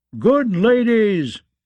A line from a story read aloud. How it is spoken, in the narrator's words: he called out to his high-born serving women